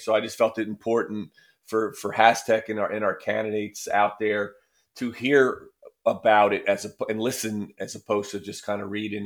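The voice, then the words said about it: Scratchy, strained voice. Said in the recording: “my voice isn't quite there today ... I got a little bit of a scratchy throat”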